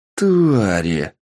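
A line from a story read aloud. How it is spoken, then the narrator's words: Growling. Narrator (Russian): Прорычал Сергей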